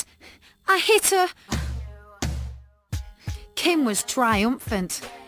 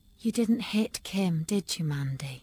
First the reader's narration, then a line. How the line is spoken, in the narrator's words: She said softly